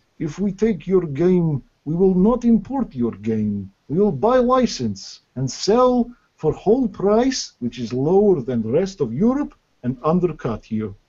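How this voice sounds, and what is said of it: Thick put-on Russian accent. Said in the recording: “in this kind of thick Russian accent”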